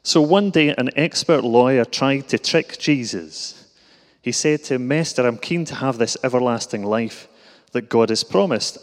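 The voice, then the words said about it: Exaggerated Glasgow Scottish accent. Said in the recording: “you'll recognise the accent, perhaps, as being from Glasgow ... put on my accent a bit”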